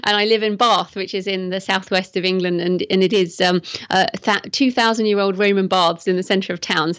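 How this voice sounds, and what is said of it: English accent. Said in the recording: “I'm English, as you can probably tell from my accent”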